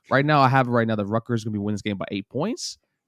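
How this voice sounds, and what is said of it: Hoarse voice, giving out. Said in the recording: “my voice is actually going out”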